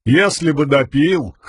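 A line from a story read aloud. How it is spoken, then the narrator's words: Snorting chuckle. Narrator (Russian): хмыкнул Тук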